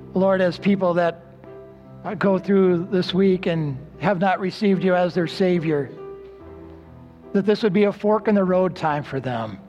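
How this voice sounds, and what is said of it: Weak, nearly lost voice. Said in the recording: “my voice is almost gone today”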